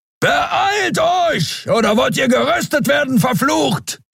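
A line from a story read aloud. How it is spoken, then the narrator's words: Thundering shout. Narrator (German): donnerte Keru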